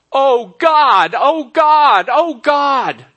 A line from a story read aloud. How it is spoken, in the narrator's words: was screaming